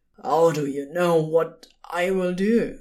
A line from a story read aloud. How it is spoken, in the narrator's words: Crowley croaked